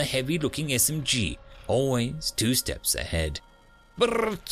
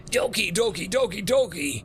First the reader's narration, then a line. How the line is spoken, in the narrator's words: they shrieked as one